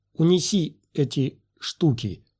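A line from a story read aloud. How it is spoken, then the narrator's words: Forced command through teeth. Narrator (Russian): велела Обин Ветарзу, выдавливая сквозь зубы подобие улыбки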